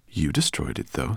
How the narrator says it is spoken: said Firedrake

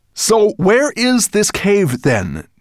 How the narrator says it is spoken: Nettlebrand asked impatiently

